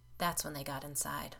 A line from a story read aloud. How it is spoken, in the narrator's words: Josh said in a low voice